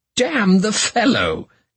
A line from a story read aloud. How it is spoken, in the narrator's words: cried he